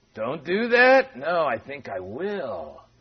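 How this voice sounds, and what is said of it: Creepy put-on voice. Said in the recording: “that's a little creepy, wasn't it?”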